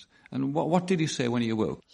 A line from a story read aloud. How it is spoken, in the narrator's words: He mumbled